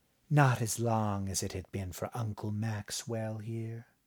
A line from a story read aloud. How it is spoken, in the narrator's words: she whispered